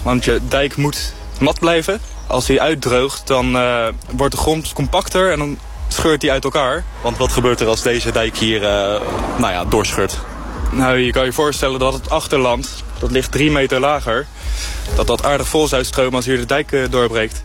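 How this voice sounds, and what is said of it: Delft Dutch accent. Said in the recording (Dutch): “Ik ben gek op dit accent. Ik vind Delft zo leuk.”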